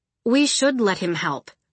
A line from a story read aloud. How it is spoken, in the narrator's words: Pisces said